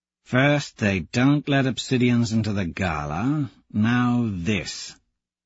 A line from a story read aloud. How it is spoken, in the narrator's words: Tactus mutters